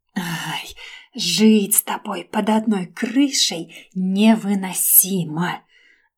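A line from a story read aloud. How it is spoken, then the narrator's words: Resigned whisper. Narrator (Russian): прошептала обреченно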